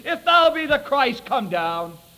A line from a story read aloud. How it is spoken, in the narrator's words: mocking him and saying